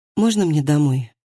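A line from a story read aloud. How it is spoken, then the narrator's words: Mumbling. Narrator (Russian): пробормотала Хильди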